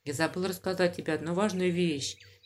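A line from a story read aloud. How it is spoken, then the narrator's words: Quiet. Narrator (Russian): тихо сказала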